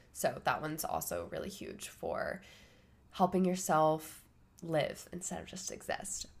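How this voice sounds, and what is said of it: Sick, rough-sounding voice. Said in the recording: “sorry for my voice being all sick and gross”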